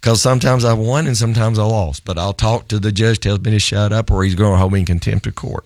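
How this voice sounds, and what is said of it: Strained, nearly lost voice. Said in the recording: “if you can tell, I've just about lost my voice this week”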